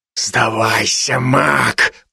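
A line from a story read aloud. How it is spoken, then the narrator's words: Monster's hiss. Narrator (Russian): прошипело чудовище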